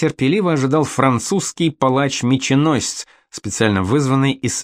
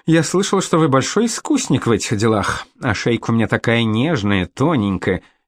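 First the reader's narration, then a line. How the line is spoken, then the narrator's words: Hearty laugh. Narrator (Russian): и сердечно рассмеялась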